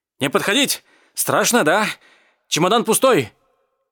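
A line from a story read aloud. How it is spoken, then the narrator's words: Shouting. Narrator (Russian): кричал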